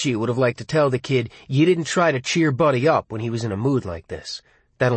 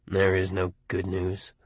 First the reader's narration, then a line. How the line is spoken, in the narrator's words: Buddy said in a low, morose, grieving voice